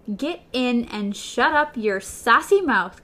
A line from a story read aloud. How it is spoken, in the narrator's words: Coral cried